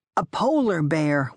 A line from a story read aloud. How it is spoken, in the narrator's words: one of the boys shouted